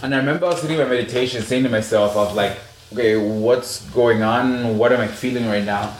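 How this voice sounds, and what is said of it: African accent. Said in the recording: “My African accent can say that.”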